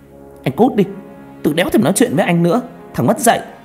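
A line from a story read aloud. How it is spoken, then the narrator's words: Furious yelling while walking. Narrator (Vietnamese): con Danh Hà Vi, mặt nó hầm hầm, vừa đi vừa quát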